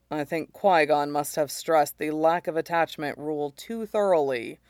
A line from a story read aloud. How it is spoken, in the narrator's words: he says dryly